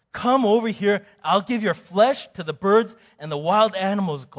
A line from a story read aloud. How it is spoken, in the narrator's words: Goliath yelled